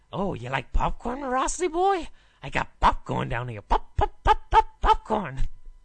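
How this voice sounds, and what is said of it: Pennywise the clown impression. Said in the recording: “do a Pennywise impression ... The big impression”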